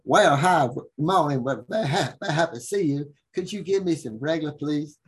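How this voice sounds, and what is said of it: Imitated Southern Virginia local accent. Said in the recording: “I came to Virginia ... I had to actually imitate the local accent”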